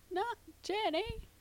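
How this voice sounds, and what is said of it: Poor Forrest Gump impression. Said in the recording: “that was my Forrest Gump impression. It was terrible.”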